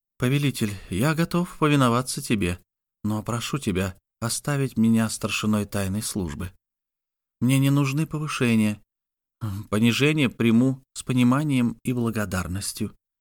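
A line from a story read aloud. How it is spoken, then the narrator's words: Low voice. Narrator (Russian): добавил вполголоса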